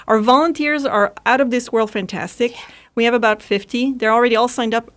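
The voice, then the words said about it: Speaker with a noticeable accent. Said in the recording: “Oh, I love your accent.”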